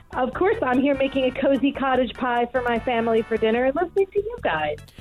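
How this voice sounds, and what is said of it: American accent, softened East Coast. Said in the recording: “it's not the accent that I would have anticipated making a cottage pie ... I'm American ... my East Coast accent has rubbed off a little bit”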